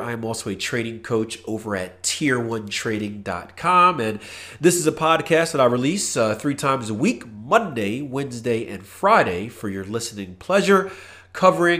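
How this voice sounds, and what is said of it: Congested, nasal voice. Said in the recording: “I got to apologize for my voice. My nose is completely clogged. That's why I've seemed very nasally”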